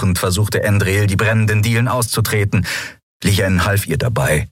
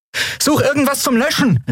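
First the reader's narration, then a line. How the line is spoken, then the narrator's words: Called out. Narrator (German): rief Endriel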